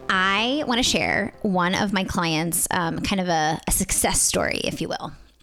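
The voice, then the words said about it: Smiling, happy-sounding voice. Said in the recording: “I'm smiling so big right now... maybe they can hear it in my voice”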